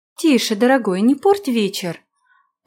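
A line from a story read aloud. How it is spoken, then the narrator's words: Cooing. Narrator (Russian): проворковала она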